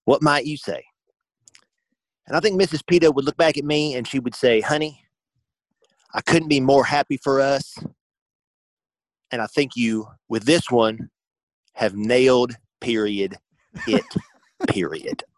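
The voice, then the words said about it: Impression with Southern accent creeping in. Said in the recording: “Southern Mississippi has kind of creeped into that accent ... A little bit more ... his Repeato impression”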